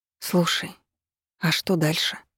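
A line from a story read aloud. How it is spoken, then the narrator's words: Quiet question. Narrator (Russian): тихо спросила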